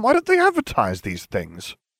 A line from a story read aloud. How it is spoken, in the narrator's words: I grumbled